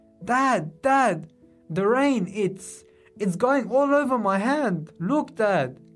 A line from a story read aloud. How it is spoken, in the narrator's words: from his excitement yelled